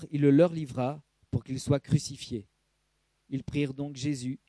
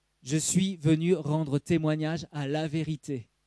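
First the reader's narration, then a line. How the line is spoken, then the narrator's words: Plain. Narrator (French): dit Jésus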